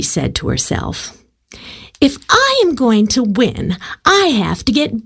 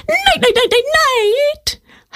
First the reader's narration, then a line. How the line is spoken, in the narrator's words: howled Coyote